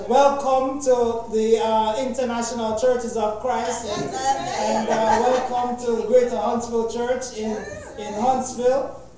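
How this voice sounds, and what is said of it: Jamaican Caribbean accent. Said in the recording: “my rendition of my Caribbean accent and my Jamaican accent ... I will not preach in Jamaican today”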